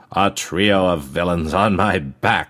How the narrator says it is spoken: he roared

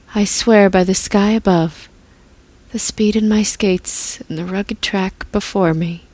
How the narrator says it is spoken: Princess Bite whispered as she fell asleep

